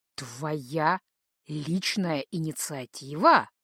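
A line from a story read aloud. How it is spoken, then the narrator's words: Menacing hiss. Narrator (Russian): угрожающе прошипел он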